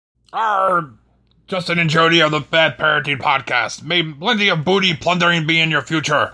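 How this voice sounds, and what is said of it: Pirate voice. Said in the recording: “Talk Like a Pirate”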